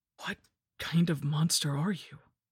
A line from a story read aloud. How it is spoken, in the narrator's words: I breathed